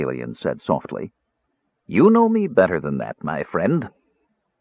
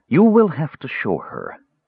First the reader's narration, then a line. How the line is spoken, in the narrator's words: Justarius said, still in the same mild voice